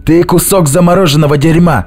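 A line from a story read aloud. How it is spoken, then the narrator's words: Sudden shout. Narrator (Russian): внезапно закричал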